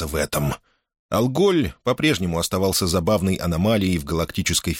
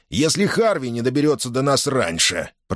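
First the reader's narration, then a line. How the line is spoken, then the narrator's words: Grumbling. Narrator (Russian): проворчал Брюер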